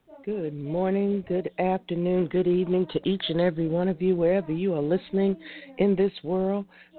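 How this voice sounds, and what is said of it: Sounds sick, unwell voice. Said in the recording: “If you cannot tell by my voice, I'm a little bit under the weather today”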